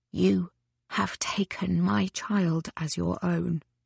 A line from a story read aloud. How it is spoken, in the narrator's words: he whispered